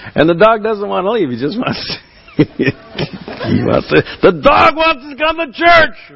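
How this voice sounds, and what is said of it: Usual voice. Nothing is said of it.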